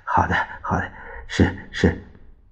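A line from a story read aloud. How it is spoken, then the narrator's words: Nervous wry laugh. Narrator (Chinese): 孙科一身冷汗，他苦笑着说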